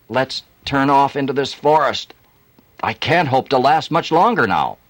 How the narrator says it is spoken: He begged him

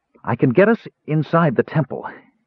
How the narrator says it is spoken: said, taking a deep breath, trying to keep his voice steady

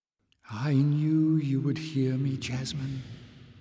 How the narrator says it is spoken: sighed the voice

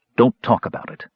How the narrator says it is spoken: said Caramon firmly

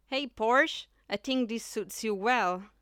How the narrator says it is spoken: Big jeers

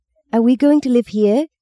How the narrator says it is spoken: Maggie squeaked

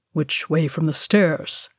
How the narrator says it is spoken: Thorin murmured back

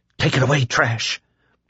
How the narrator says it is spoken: Lloyd whispered

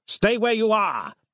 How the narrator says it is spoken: barked Devlin from somewhere Nick could no longer see

